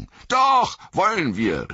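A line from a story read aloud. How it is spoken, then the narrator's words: Calling out. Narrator (German): rief Pippin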